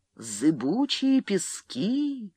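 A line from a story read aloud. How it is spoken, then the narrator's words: Horrified, fading eerie whisper. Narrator (Russian): С ужасом ответили дюны, без конца повторяя это замирающим жутким шепотом, как будто злорадно разбалтывая какую-то новость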